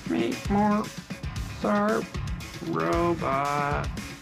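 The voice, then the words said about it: Poor robot voice imitation. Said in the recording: “do the robot voice. I want to hear it again. ... That's a terrible robot voice.”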